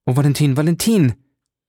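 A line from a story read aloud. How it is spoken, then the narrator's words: Called out. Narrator (German): rief er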